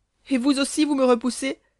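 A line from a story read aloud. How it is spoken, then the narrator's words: Heartbreaking cry. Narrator (French): s'écria Hélène avec un accent qui déchira les cœurs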